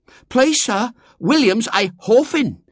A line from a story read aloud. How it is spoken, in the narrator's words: said Eglantine excitedly